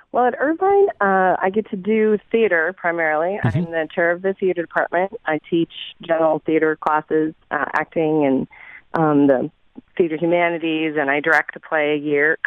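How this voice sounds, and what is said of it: Scratchy, slightly strained voice. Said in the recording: “my voice is a little scratchy because I've been projecting in rehearsals”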